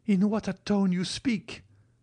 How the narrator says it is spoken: cried Valentine

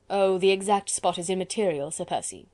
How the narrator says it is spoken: replied Chauvelin coldly

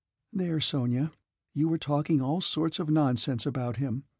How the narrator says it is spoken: Natasha began in a mild voice, such as children use when they wish to be praised

